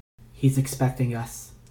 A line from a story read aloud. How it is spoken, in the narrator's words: Two said softly